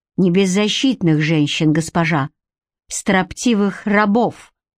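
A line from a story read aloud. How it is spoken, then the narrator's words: Furious growl. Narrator (Russian): в бешенстве прорычал Гарик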